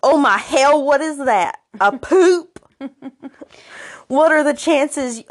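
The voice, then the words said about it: Put-on Southern American accent. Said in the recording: “I'm imagining he has a southern accent.”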